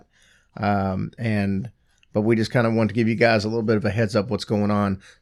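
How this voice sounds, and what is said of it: Worn-out, strained voice. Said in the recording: “You can tell my voice is kind of shot.”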